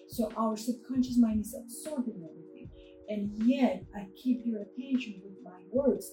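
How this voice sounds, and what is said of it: Noticeable foreign accent. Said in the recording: “even though I have an accent, as probably you heard, everybody heard it.”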